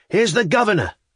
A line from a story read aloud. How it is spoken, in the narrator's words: cried